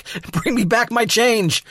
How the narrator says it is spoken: he yells back

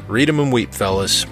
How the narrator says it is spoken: laughed Union Investigations Unit Supervisory Agent Knight

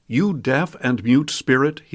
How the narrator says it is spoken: he said

